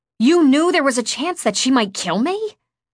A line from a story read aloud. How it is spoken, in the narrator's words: I snapped